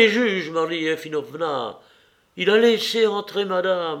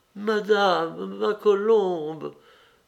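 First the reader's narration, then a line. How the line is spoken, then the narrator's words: Old woman murmuring. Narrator (French): murmura la vieille femme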